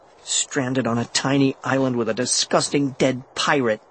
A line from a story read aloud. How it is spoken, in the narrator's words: I muttered